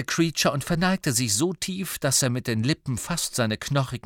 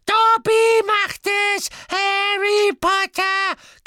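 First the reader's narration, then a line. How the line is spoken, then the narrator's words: Tearful squeak. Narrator (German): quiekte Dobby, dessen Tennisball große Augen immer noch in Tränen schwammen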